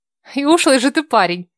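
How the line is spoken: Laughing. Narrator (Russian): Смеясь

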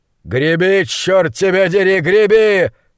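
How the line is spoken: Yelling at someone. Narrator (Russian): заорал на него монстролог

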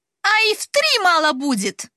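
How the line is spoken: Shout. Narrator (Russian): крикнула Глафира

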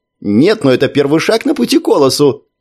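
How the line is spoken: Joyful. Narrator (Russian): радостно сообщил адвокат

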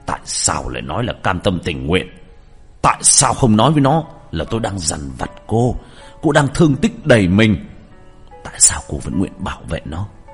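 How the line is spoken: Angry hiss. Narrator (Vietnamese): Hàn Trạch Thần tức giận rít lên

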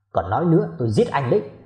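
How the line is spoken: Angry shout. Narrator (Vietnamese): Người nửa mặt tức giận quát

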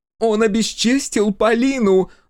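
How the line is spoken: Shout. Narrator (Russian): закричала она

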